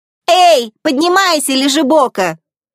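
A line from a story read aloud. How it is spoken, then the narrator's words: Loud shout into ear. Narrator (Russian): громко крикнула прямо на ухо Элли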